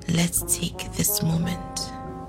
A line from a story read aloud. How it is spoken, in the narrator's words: she whispered back